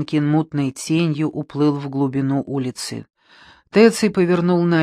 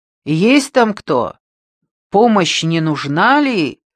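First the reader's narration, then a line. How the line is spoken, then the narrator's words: Shouted. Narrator (Russian): крикнул Теций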